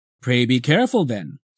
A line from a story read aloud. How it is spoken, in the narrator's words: said Crates